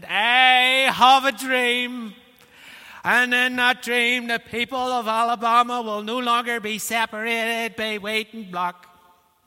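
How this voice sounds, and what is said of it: Northern Irish accent. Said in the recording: “It's a Northern Irish accent.”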